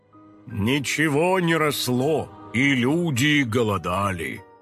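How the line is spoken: Dramatic elder's proclamation. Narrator (Russian): драматичным голосом вещал старейшина

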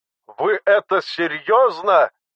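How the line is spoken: General shouting, bursting with indignation. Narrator (Russian): Чуть не лопаясь от возмущения, прокричал генерал

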